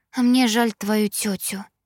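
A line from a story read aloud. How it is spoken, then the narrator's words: Timid smiling confession. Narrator (Russian): призналась Кэрри, робко улыбнувшись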